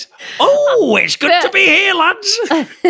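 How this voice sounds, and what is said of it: Silly put-on character voice. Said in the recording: “doing a silly voice.”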